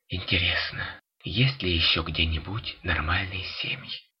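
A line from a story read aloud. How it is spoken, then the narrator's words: Barely audible whisper, young woman. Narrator (Russian): еле слышно прошептала молодая женщина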